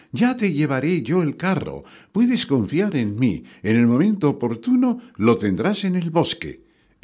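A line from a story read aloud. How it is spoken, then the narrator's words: Exclaimed. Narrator (Spanish): exclamó Pulgarcito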